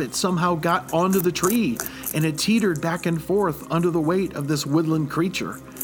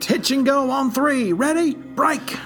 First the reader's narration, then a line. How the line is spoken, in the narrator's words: Russell pleaded to the heavens